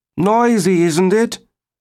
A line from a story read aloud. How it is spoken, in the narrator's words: Wade Fraser shouted